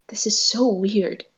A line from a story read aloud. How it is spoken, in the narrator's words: he mutters to Rei